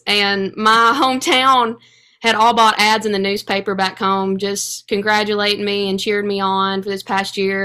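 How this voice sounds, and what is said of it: Speaker's own regional accent. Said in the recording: “you can tell by my accent, hers is the same”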